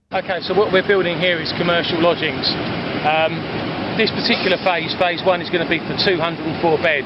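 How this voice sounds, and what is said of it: British accent. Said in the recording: “You can hear his British accent.”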